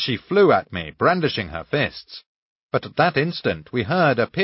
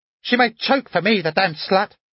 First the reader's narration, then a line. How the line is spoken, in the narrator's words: the woman shrieked after her